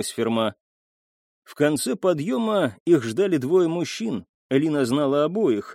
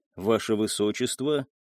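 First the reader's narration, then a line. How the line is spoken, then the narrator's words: Soft rustling whisper. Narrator (Russian): мягко прошелестел он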